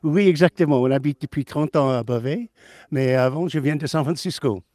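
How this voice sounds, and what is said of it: Slight foreign accent. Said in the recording (French): “votre petit accent, vous venez pas de Beauvais”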